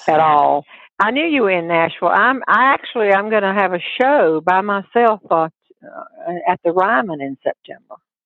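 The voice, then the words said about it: Southern US accent. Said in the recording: “if you're from Tennessee and Kentucky, you will not need an interpreter for my accent.”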